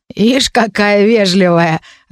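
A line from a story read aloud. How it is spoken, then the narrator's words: Roaring laughter, growling. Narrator (Russian): расхохотался с раскатистым рыком гоблин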